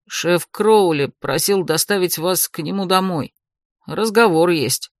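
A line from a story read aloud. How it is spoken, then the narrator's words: Displeased young man mutter. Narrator (Russian): недовольно пробурчал парень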